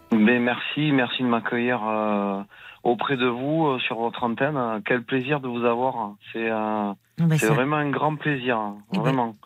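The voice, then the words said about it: Slight southwestern French accent. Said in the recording (French): “vous avez du soleil dans la voix. Un petit accent du sud... du sud-ouest”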